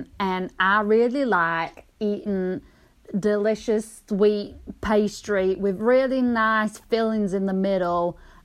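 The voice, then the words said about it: Put-on Southern American accent. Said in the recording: “Carolina. ... I don't know why I went fucking southern.”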